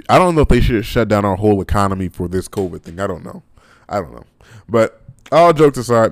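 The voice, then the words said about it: Hoarse, strained voice. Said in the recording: “my voice is starting to get hoarse.”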